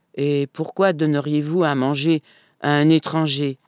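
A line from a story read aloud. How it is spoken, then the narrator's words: Plain. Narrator (French): demanda Schmiel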